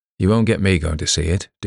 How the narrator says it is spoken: declared Dover flatly

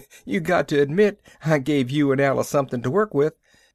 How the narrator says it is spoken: He chuckled a bit and added

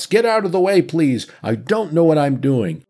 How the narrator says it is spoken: He shouts

